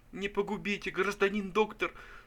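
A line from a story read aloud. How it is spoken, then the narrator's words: Sobbing tearful plea. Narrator (Russian): сказал Пузырев и зарыдал неподдельными слезами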